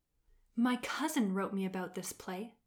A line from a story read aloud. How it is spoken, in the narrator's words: murmured one of the agricultural ministers from Ba Sing Se